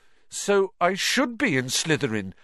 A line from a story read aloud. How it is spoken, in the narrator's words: Harry said, looking desperately